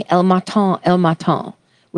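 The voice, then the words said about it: Put-on French accent. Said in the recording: “I'm giving that a French accent”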